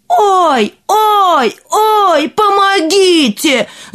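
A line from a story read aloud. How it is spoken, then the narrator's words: Screamed for help. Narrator (Russian): закричал император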